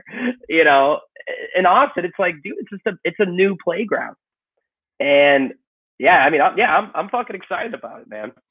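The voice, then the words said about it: Chicago accent. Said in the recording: “with the Chicago accent”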